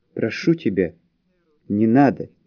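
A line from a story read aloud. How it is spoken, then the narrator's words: Quiet. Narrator (Russian): тихо проговорил Юлиан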